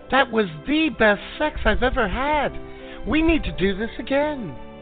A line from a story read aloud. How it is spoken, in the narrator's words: the girl exclaimed